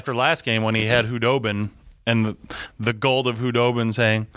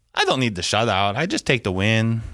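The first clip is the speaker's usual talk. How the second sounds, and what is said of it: Poor imitation of another person's voice. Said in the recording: “That was a horrible imitation ... That was a brutal impression.”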